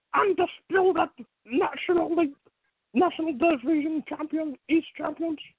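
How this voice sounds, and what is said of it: Bad impression of another person's voice. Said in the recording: “my Paul Heyman impression. A bad one”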